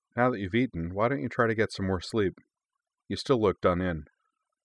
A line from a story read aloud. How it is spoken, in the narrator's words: he said, then suggested gently